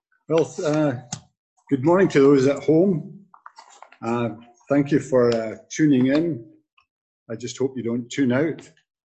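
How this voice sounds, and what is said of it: Strong Scottish accent. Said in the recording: “I never lost my accent. I've been here 50 years and I still sound as if I just stepped off the boat ... I didn't understand a word you said, but I loved your accent ... Scotland”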